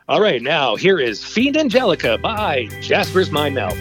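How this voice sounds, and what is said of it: Radio DJ announcer voice. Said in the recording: “my old DJ voice,”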